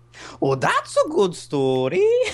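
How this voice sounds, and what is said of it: Imitates a cartoon character's voice. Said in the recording (French): “t'as une excellente imitation de Merida quand, euh, quand elle se fait raconter l'histoire”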